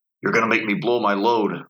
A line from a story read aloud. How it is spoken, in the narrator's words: growled against her ear